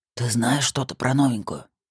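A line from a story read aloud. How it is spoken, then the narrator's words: Whispered question. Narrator (Russian): шепотом спросил Колян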